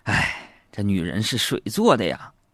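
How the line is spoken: Long sigh. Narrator (Chinese): 长叹一口气说

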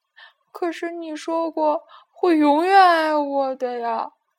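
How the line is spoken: Crying. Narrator (Chinese): 阿丽哭着说

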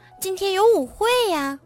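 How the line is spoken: Shouting. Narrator (Chinese): 苏菲喊道

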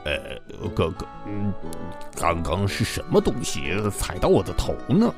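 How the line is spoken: Mumbling. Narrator (Chinese): 他嘟囔道

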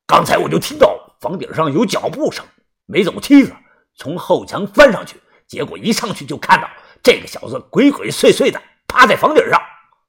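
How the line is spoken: Angry. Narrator (Chinese): 于哥一脸的怒气，说道

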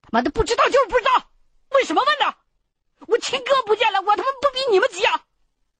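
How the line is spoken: Angry roar. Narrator (Chinese): 大吼了一声

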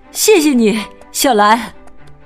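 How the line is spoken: Breathless. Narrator (Chinese): 博蒂喘着气说

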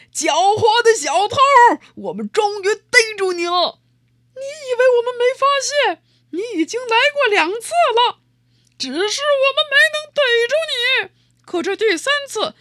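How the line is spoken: Laughing and shouting. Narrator (Chinese): 又是笑又是喊

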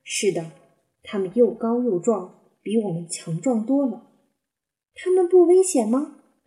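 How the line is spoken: Plain. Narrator (Chinese): 斑比问

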